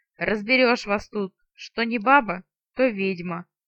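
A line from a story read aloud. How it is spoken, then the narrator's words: Booming deep bass. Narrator (Russian): Раскатистым басом прогудел леший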